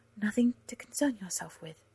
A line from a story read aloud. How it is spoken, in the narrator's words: Ellen said a little weakly